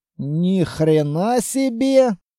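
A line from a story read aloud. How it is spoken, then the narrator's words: Whisper. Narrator (Russian): прошептал Петрович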